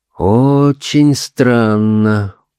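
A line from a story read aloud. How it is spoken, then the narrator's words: Drawn-out. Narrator (Russian): протянул Грюнер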